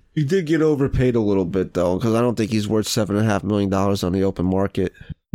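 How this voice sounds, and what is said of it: Congested, very nasal voice. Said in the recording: “I sound like shit ... I came down with a cold earlier ... I just cannot breathe right now ... Very nasally.”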